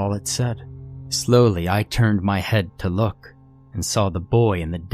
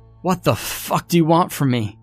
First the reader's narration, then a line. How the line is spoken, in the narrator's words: I shouted, my voice lacking any hope